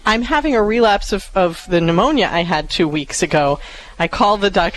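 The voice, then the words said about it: Hoarse voice with throat clearing. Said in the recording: “clearing my throat and trying to talk in my hoarse voice ... please forgive the hoarse voice and keep throat clearing”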